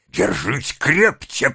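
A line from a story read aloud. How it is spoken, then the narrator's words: Hissed. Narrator (Russian): прошипел Сайкс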